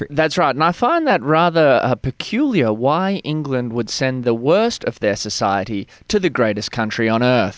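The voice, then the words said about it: Australian accent. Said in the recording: “you've got an Australian accent.”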